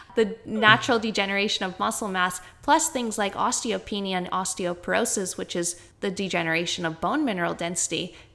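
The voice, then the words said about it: Canadian accent. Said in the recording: “That's my Canadian accent versus the Australian over here.”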